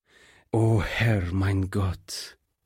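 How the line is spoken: Groaned. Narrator (German): stöhnte der Pastor

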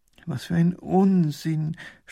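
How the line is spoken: Groaning. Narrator (German): stöhnt Professor Pfiffikus

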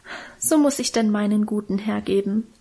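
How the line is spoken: Sighing, self-moved. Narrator (German): seufzte Minchen und schien selber gerührt von ihrer Opferbereitschaft

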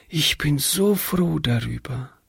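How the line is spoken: Whispering. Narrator (German): flüsterte Hannchen

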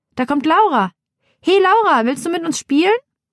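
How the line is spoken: Calling out. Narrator (German): ruft Theresa

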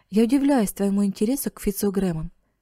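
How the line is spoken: Plain. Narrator (Russian): сказал он

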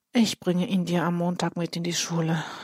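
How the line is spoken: Sighing. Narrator (German): seufzt

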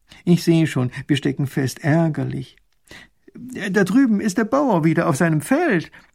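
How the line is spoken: Old man lamenting. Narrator (German): jammert der alte Kutscher

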